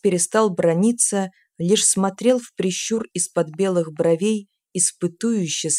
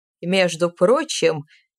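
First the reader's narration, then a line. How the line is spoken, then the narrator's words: Nasty laugh. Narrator (Russian): мерзко засмеялся сухарь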